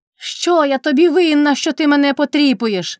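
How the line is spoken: Shout. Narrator (Ukrainian): крикнула Кайдашиха

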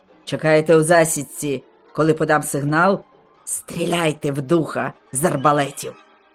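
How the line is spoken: Shouted parting command. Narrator (Ukrainian): на прощання крикнувши своїм посіпакам

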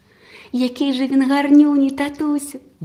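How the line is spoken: Girl exclaiming. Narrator (Ukrainian): вигукнула дівчинка

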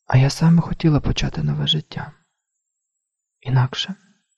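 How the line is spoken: Whispered. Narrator (Ukrainian): прошепотіла

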